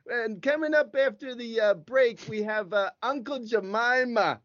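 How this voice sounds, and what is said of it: Put-on accent. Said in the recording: “Is this accent good? ... That's good. Yeah.”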